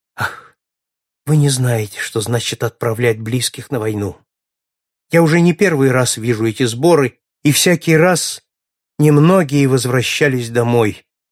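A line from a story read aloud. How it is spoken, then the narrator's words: Sad sighing reply. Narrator (Russian): печально вздыхая, отвечала леди Мот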